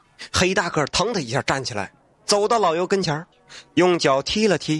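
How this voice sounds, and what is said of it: Usual voice. Nothing is said of it.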